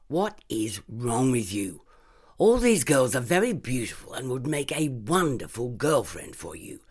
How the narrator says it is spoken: Yolanda smirked sharply

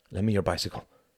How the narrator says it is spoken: said Tom

